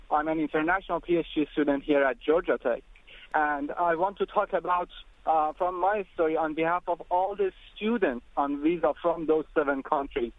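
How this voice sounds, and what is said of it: Foreign accent in English. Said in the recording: “I want to apologize for my accent.”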